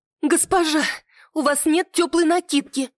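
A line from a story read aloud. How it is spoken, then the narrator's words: Anxious maid exclaiming. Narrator (Russian): взволнованно воскликнула горничная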